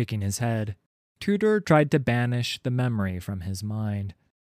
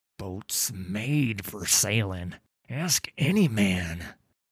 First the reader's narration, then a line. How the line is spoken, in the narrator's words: Tudor wheezed through chattering teeth